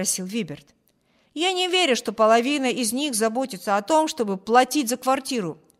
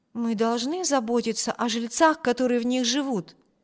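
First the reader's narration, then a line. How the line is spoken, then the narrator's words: Plain. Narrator (Russian): ответила Эми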